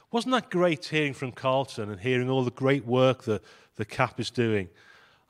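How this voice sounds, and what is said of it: Voice with a slight cold. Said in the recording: “I've got a bit of a cold”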